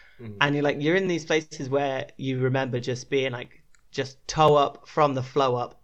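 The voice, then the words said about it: Posh English accent. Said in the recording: “I sounded so posh. I promise I'm not from Eton. ... I don't know why this is my voice.”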